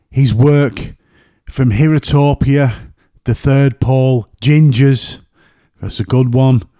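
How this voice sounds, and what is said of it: Northern English accent. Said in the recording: “my northern accent there again in the way.”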